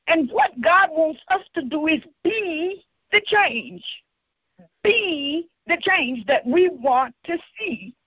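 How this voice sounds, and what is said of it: Strident, forceful preaching voice. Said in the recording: “the stridency in my voice”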